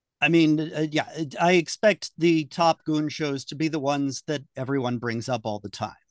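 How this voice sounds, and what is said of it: American accent. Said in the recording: “with that accent? ... That accent ... He's an American person”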